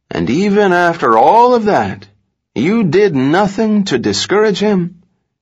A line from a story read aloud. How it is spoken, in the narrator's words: as though veiled in a private grief, the lawyer wistfully said